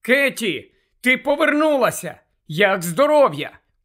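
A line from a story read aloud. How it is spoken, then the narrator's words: Scream. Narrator (Ukrainian): Герміона закричала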